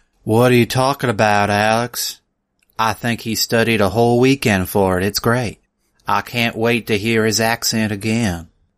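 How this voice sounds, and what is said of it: Put-on Southern accent. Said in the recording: “Your accent's too good for this... It's as if you were raised by a Texan.”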